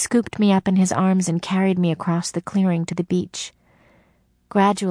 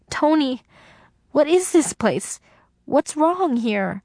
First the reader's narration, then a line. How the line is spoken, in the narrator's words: In terror, I cried out